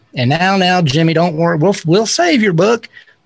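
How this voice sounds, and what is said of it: Put-on Houston accent. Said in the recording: “That's my best Houston accent.”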